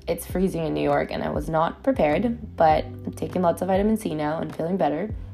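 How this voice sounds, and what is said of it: Slightly off, sick-sounding voice. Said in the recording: “My voice sounds a little weird right now ... I'm recovering from a cold”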